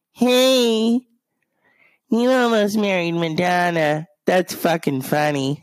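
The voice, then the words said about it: Imitates another person's voice. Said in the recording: “my Melanie Griffin impression”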